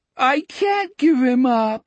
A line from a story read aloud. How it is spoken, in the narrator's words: Richard moaned in the weepy, bewildered voice of a 5-year-old